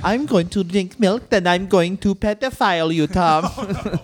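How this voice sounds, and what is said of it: Put-on unidentified accent. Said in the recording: “I don't know which accent this is.”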